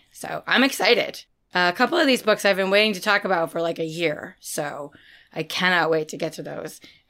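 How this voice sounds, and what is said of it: Hoarse, partly lost voice. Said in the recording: “Yes, my voice sounds weird. I did lose my voice, but I promise it's nothing bad and it's coming back... I've lost my voice”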